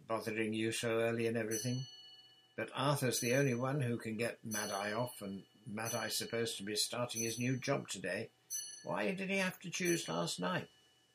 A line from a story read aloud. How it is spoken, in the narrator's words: said, more calmly